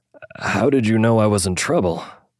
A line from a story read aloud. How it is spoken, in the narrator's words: Jack asked, his voice still shaky